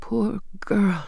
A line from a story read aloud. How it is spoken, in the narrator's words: whispered